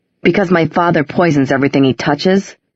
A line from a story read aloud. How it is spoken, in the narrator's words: Jace said bitterly